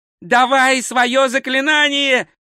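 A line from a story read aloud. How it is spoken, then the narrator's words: Loud yelling. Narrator (Russian): завопил два цветок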